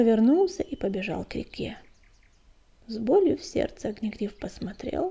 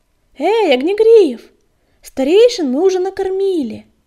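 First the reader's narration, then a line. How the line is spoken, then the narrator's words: Shouting while running. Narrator (Russian): Обернувшись на бегу, крикнул Белыш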